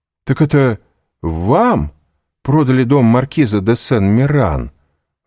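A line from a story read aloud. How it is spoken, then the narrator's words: Exclamation. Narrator (Russian): воскликнул Вильфор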